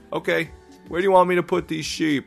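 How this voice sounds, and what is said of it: Thick New York accent. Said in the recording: “our moving guy had such a thick New York accent”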